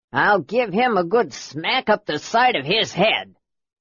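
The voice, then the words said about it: Deep grumbling character voice. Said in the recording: “a deep voice grumbled”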